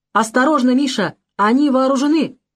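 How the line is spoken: Shouted. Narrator (Russian): закричал Валентин Валентинович

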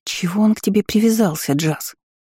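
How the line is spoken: Whisper. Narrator (Russian): шепнула Изабель

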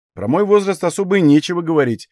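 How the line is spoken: Snorting. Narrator (Russian): хмыкнул я

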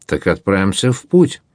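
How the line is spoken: Plain. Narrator (Russian): ответил Дрейв

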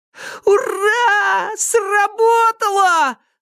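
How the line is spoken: Yell. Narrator (Russian): заорал Сенька

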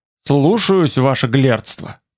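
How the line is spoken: Hurt mutter. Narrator (Russian): пробормотал я уязвленно

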